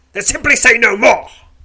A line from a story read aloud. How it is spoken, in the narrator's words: he snaps